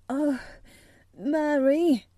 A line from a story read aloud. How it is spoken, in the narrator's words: he cried out with a half sob